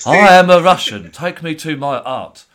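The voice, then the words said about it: Put-on Russian accent. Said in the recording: “does a good Russian impression in it as well ... Good for his Russian man impression.”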